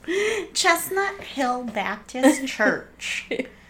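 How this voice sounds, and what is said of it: Put-on Southern US twang. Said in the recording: “like a southern twang”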